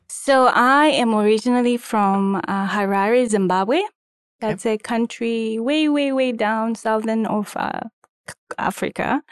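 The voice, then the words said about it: Slight foreign accent. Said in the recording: “You have a little bit of an accent. ... I have a little bit of an accent.”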